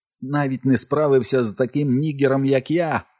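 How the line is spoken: Joyful ringing ghostly voice. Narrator (Ukrainian): радісно задзеленчав наступний голос привид

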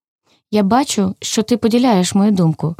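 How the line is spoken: Plain. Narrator (Ukrainian): сказав товариш Вовчик

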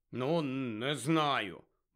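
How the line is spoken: Grumbled. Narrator (Ukrainian): буркнув Рон

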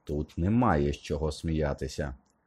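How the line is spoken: Cold declaration. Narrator (Ukrainian): холодно заявив він

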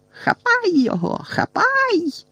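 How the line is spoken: Shrieking. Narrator (Ukrainian): верещала Амбридж

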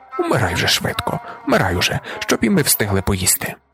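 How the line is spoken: Candid whisper. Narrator (Ukrainian): вона із щирою безпосередністю прошепотіла

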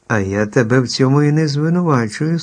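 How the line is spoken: Calm objection. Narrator (Ukrainian): спокійно заперечила чарівниця Вілліна

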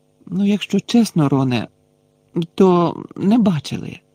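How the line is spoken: Heavy apologetic sigh. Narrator (Ukrainian): важко зітхнула ніби просила вибачення

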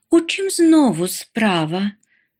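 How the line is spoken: Weary repeated sigh. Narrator (Ukrainian): вже вкотре зітхнула мама

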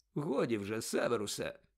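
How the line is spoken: Calm. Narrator (Ukrainian): спокійно мовив Дамблдор

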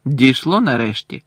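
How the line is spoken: Cold reply. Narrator (Ukrainian): холодно відповів Гаррі

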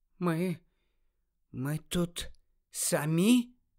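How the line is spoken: Quiet question. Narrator (Ukrainian): тихо запитала Нарциса

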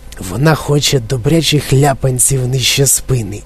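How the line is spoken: Old man whispering. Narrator (Ukrainian): прошепотів на вухо Чарлі дідунь Джо

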